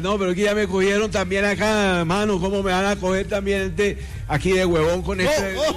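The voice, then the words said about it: Imitated Colombian coastal (costeño) accent. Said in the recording (Spanish): “el costeño más costeño de todos ... Es que yo soy costeño, ¿me entiendes? ... Yo soy costeño, mano.”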